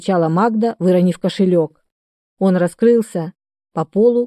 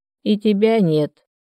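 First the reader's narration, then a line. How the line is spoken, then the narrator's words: Creaky, broken old woman's voice. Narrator (Russian): дребезжащим прерывающимся голосом проскрипела жуткая старуха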